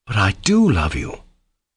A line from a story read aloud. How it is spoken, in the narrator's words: answered Alyosha warmly